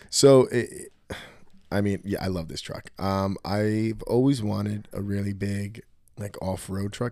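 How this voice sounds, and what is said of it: Hoarse voice. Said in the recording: “my voice is like hoarse all of a sudden”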